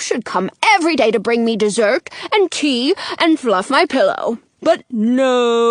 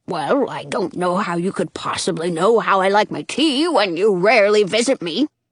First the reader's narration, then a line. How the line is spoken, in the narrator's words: Dottie grumbles